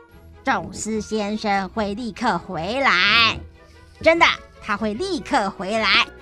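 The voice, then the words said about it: Heavy, grave voice. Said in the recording (Chinese): “用沉重的声音说”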